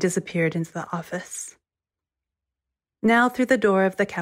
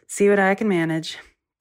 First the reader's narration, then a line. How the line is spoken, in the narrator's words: He sighed and said